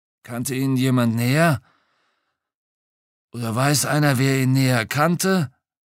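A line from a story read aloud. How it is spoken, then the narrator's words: Croaking after false starts. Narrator (German): Nach zwei, drei Anläufen krächzte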